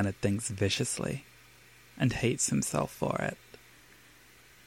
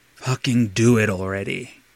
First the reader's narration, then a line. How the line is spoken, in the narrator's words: he growls out, throat husked out by need